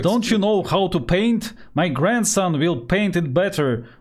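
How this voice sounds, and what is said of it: Shouting imitation of another person. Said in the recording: “if you do a good Khrushchev impression ... He was just shouting a lot.”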